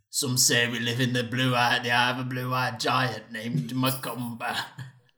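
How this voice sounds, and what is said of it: Scottish accent impression. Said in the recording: “my Richard Madden impression ... It got progressively worse ... That was like Scottish.”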